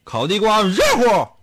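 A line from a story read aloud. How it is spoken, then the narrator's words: Shout. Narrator (Chinese): 他都会喊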